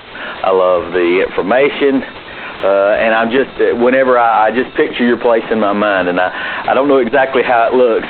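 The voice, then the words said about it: American Southern accent. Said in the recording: “I have a true Southern accent”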